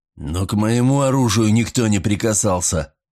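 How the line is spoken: Strained wheeze. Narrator (Russian): надсадно просипел Вайланд

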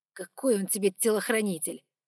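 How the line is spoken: Through clenched teeth. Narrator (Russian): процедил Лукас

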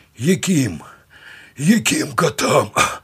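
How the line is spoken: Hoarse convict. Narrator (Russian): прохрипел варнак

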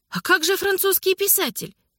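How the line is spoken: Exclamation. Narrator (Russian): воскликнула Анна

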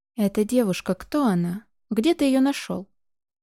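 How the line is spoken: Husky question. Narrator (Russian): хрипловатым голосом спросил Нейран

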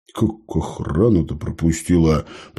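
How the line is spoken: Grumbling. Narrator (Russian): пробурчал Смирнов

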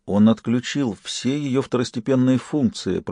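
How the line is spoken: Mutter. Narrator (Russian): пробормотал Ифор

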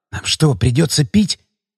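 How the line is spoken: Whisper in ear. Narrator (Russian): прошептал Митя на ухо Леонидычу

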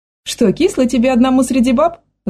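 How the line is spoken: Mother laughing. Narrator (Russian): засмеялась мама

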